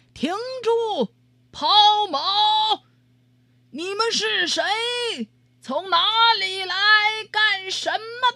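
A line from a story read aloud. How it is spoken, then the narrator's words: Sentry shouting from afar. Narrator (Chinese): 瞭望塔上的哨兵老远见到他们就喊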